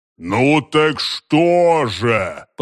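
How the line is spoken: Deep rumbling voice. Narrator (Russian): прогудел великан

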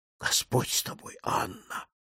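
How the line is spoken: Muttered, old man. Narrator (Russian): пробормотал снова старик

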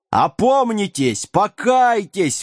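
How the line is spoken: Tireless yelling. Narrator (Russian): вопил отец Доминик без устали

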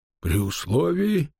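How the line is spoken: Muffled mutter. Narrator (Russian): глухо пробормотал он

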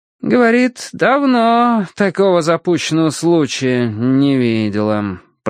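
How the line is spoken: Drawling. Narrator (Russian): протянул Финч

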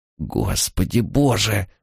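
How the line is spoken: Mutter. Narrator (Russian): пробормотал он

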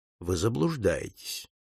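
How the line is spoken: Cold objection. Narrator (Russian): холодно возразил Пинкертон

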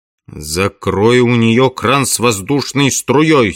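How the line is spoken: Angry command. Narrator (Russian): сердито приказал Керн

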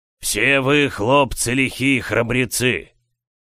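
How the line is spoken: Barking shout. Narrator (Russian): рявкнул он

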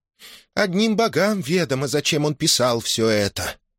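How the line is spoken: Sighing. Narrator (Russian): вздохнула Ошогбо

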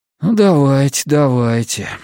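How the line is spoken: Dejected voice. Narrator (Russian): говорю я упавшим голосом

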